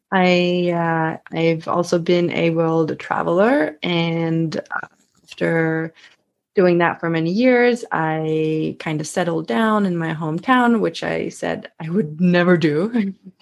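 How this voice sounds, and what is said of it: Slight Swedish accent. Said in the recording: “I am Swedish, so you might hear a little bit of an accent coming through every now and then.”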